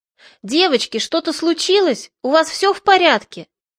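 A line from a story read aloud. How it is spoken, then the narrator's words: Shout. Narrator (Russian): Алена крикнула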